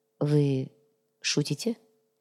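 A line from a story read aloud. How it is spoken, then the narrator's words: Quiet question. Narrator (Russian): тихо спросил Сантьяго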